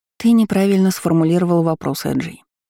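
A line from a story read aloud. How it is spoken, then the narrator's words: Sighing. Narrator (Russian): вздохнув, сказала ему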